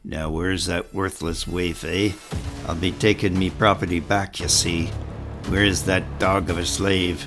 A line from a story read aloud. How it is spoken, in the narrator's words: The man in the hold grunted and cursed